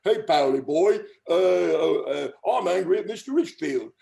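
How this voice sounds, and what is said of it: Imitated heavy English accent. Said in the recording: “this very heavy, some kind of English accent”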